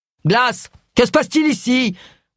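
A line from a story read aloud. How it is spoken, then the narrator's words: Nasal, hissing bark. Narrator (French): aboya une voix nasale et sifflante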